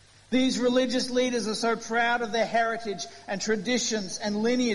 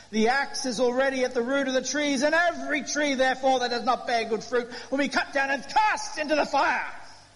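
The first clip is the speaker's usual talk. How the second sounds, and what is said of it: Put-on Southern Baptist preacher accent. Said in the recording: “I'd preach like that every week, except it would destroy my throat. ... I can do a good Southern Baptist accent sometimes, but only for about 2 minutes.”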